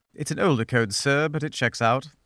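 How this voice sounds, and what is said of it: British villain accent. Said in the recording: “Star Wars, Star Wars British villain.”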